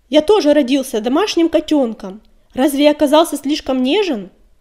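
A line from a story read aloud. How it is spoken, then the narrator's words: Desperate shout. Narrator (Russian): С отчаянием крикнул он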